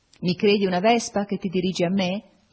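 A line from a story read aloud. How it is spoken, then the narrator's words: Said laughing. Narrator (Italian): dissi ridendo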